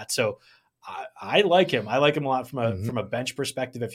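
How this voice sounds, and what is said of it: Weak, fading strained voice. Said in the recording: “my voice is slowly, slowly dying”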